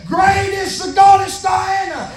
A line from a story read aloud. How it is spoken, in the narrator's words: they're hollering back and forth